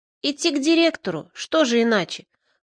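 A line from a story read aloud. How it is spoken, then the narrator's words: Reproachful snort. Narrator (Russian): хмыкнул Бобырь, как бы осуждая меня за то, что я сам не могу понять такой простой истины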